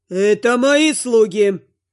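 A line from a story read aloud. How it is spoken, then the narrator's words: Roaring demon. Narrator (Russian): Взревел горячий финский парень, то есть демон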